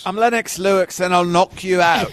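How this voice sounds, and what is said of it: Good British accent, Lennox Lewis impression. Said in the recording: “She's British accent. ... That was a good accent, though, also.”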